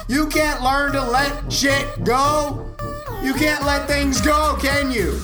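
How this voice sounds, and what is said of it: Raised, frustrated shouting voice. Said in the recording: “raising my voice ... this is how fucking frustrated I am”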